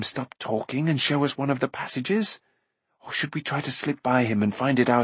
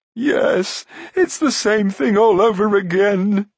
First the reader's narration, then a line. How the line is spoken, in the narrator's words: he sobbed